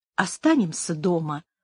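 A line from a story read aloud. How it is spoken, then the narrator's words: Gentle request. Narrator (Russian): ласково попросила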